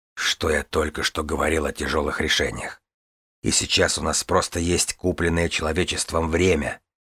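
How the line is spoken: Gentle explanation. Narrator (Russian): мягко пояснил Релосвар

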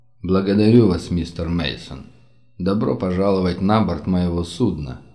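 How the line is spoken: Gloomy. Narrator (Russian): мрачно произнес

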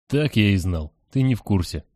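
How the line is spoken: Sighed. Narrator (Russian): вздохнул Черный

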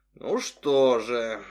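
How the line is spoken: Thoughtful drawl. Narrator (Russian): задумчиво протянул врач

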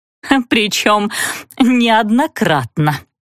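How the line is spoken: Sinister giggle. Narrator (Russian): хихикнула зловеще Лариса Павловна

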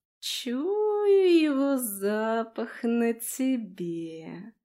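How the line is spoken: Slow, breathy, youthful voice. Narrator (Russian): проговорила пророчица медленно, с придыханием, и изменившийся голос ее внезапно показался Флорике совсем не старческим

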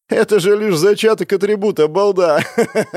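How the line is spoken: Arrogant laughter. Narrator (Russian): Он рассмеялся высокомернее некуда

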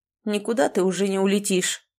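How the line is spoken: Menacing outburst. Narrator (Russian): грозно вырвалось у отца

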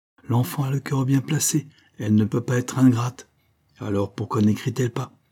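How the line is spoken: Angry exclamation. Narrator (French): s'écriait Benoît, tout hérissé de colère

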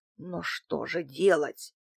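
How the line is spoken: Strained, forced out. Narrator (Russian): выдавил антиквар

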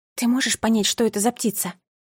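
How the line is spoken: Whisper. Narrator (Russian): шепнула

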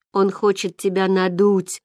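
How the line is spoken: Sleepy muffled grumble. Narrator (Russian): спросонья буркнул Гай из-под одеяла

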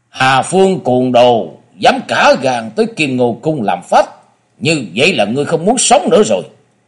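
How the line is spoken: Hoarse deep shout. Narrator (Vietnamese): một tiếng khàn khàn trầm thanh quát lên

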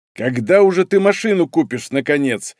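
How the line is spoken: Grumbling. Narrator (Russian): ворчал приятель

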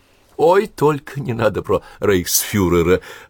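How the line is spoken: Embarrassed laugh. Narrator (Russian): засмеялась, стараясь скрыть смущение

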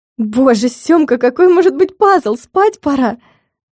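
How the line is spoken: Weary, straining groan. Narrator (Russian): Простонала, с трудом стаскивая с себя кроссовки

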